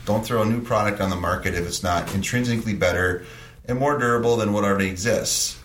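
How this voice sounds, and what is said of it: Minnesotan Stearns County accent. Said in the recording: “With my Stearns County accent? ... With my mush mouth?”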